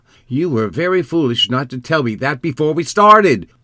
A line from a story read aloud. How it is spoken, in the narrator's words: exclaimed Kima